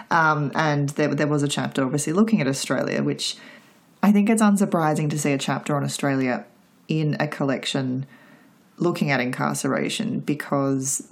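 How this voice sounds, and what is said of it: Australian accent. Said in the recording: “most people will obviously guess by my accent that I'm from Australia.”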